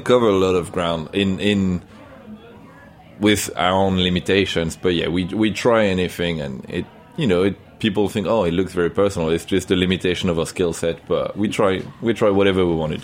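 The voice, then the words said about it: French accent. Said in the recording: “Pardon my French accent.”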